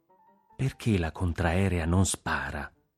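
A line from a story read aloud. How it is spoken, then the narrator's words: Low voice. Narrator (Italian): disse a voce bassa Antonino Nunziante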